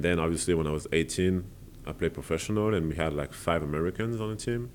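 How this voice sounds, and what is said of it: Strong accent in English. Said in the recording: “I have a still my strong accent”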